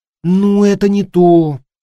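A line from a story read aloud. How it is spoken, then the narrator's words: Sighing. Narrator (Russian): вздохнула она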